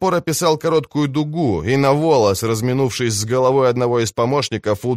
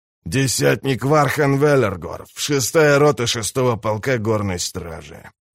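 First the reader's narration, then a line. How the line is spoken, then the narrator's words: Slow grumble. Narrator (Russian): проворчал он неторопливо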